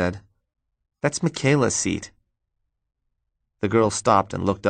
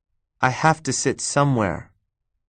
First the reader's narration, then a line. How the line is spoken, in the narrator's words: the girl said to Tina in a firm, calm voice